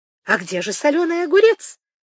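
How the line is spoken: Cheerful exclamation. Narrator (Russian): воскликнула Сливина, сморщив веселые глаза

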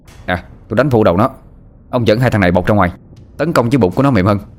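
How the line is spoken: Shouting. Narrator (Vietnamese): Thằng Sinh quát lên

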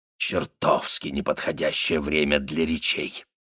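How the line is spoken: Hoarse, throat-clearing. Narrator (Russian): Хрипло откашлившись, он сказал

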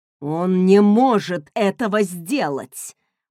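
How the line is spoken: Growled. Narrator (Russian): прорычал Люсьен

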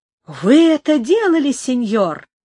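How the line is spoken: Astonished, delighted exclamation. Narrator (Russian): воскликнул пораженный и в то же время обрадованный Алло

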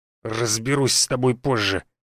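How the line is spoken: Menacing through teeth. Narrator (Russian): процедил голосом, который не сулил пареньку ничего хорошего

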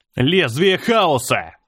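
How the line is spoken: Shouting. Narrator (Russian): закричал я

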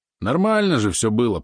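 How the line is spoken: Grumbled. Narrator (Russian): пробурчал он

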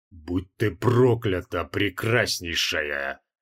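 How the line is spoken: Strange unfamiliar voice. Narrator (Russian): произнес чужим незнакомым голосом

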